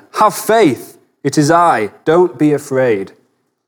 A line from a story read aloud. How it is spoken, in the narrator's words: Jesus called out to them